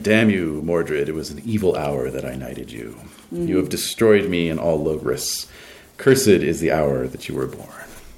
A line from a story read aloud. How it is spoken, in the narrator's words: Arthur is muttering